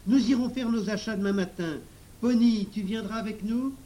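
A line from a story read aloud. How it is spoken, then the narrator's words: Satisfied exclaiming. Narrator (French): s'écria Émile, satisfait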